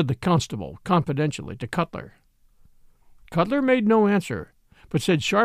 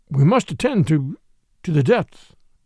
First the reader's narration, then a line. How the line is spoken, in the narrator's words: his voice escaped from articulation